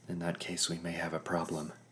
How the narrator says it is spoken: I whispered

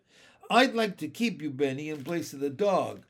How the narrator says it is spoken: laughed the lady

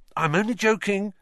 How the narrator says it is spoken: Ron added hastily as Ginny blanched

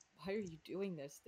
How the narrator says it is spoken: groaned

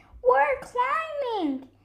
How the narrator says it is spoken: they shouted

